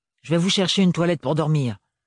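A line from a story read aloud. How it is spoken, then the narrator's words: Aunt's curt declaration. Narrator (French): déclara sèchement la tante Roselyne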